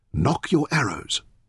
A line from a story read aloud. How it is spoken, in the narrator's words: Taita ordered quietly